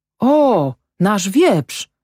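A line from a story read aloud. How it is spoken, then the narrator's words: Called out. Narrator (Polish): zawołał Fritz Hammer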